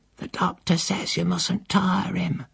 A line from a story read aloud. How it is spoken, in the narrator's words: the housekeeper entreated me in a whisper